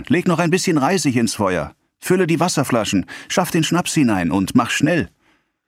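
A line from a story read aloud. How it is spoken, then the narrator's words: Landlady calling out. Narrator (German): rief die Wirtin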